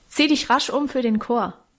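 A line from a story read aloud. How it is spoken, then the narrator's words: Called after her. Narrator (German): rief Guste hinter ihr drein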